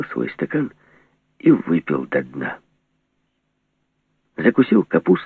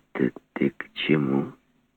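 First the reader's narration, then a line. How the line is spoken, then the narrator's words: Gentle quiet question. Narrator (Russian): Все так же ласково и тихо спросил Горбун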